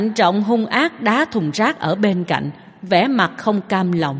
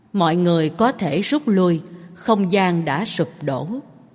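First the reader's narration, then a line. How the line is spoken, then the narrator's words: Sighing. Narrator (Vietnamese): cậu thở dài nói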